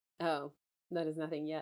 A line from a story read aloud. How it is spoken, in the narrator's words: I muttered within